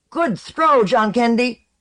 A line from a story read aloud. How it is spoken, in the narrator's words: a Sfarborn near her called out